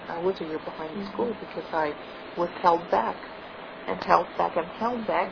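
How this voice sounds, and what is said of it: Slight accent. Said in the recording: “my tinge of, I think, a little accent”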